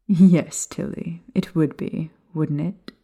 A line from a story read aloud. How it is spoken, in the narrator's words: Daria chuckled